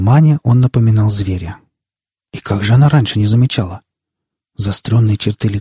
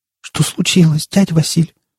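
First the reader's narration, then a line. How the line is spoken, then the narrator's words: Trembling voice. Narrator (Russian): дрожащим голосом спросила она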